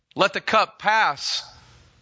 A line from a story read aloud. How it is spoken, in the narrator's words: he cried